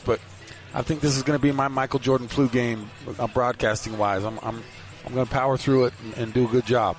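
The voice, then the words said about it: Sick, under-the-weather voice. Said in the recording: “I'm a little bit under the weather, as you might be able to tell from my voice”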